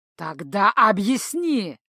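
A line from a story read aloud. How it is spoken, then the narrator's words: Growling. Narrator (Russian): зарычал Иннема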